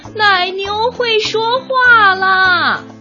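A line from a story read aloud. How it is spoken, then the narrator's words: Shouting while running. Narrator (Chinese): 他一边往神父住的地方跑，一边喊道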